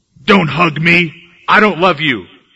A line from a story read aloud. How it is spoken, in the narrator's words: growled